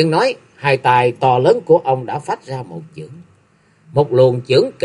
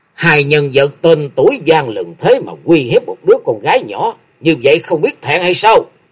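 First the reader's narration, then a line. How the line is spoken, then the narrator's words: Old man's loud shout. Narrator (Vietnamese): lão hán đã quát to một tiếng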